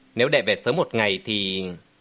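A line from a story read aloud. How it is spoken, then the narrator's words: Sighing regret. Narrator (Vietnamese): Vô Vi đạo trưởng thở dài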